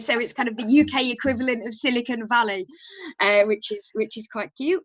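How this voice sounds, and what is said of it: Yorkshire English accent. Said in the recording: “you probably won't be able to tell from my accent, but I'm from Yorkshire”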